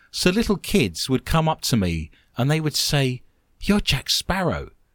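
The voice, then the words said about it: English accent. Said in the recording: “I've got the English accent.”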